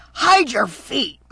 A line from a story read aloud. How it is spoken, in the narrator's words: hissed